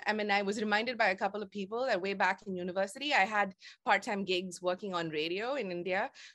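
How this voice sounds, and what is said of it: Indian-accented English. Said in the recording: “people leaning forward and asking me to repeat myself because they didn't understand my accent”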